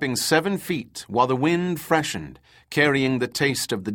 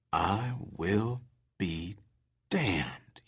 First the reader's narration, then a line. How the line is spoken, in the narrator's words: he muttered, drawing out each word